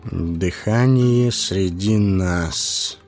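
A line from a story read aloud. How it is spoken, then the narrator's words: Muttering through teeth. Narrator (Russian): пробормотал он сквозь зубы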